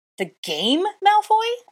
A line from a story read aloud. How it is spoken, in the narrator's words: shrieked, fire rushing back into my cheeks